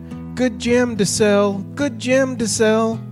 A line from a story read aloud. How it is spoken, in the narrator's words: This sounded sweetly